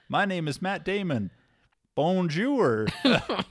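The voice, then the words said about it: Mock French accent. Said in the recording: “Cody is not a French word, so you can say it normal... You can say the name without an accent. Or you can be like”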